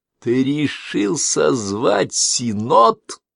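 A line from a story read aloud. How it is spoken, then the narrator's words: Growled. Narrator (Russian): прорычал Малин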